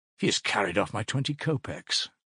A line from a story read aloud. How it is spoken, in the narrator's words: Raskolnikov murmured angrily